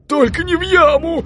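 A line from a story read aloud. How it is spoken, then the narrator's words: Pleading. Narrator (Russian): взмолились братья Гафс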